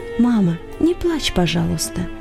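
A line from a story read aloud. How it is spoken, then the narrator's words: Whisper in ear. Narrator (Russian): шепнул ей на ухо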